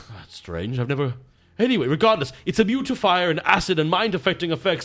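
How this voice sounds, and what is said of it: Erudite, cultured-sounding voice. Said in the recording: “you sound like you've gotten more erudite. More cultured, as if you spent a lot of time in the library.”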